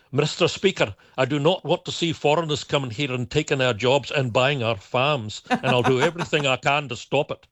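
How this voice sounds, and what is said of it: Put-on Scottish accent, fairly good. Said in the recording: “Was that your Scottish accent ... Well, it was my best attempt at one ... It's not bad ... I'll give you a good 8 out of 10 on that”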